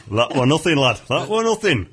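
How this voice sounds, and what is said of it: Broad Yorkshire accent. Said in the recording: “you notice his broad accent ... He comes up from Yorkshire. ... Yorkshire lad.”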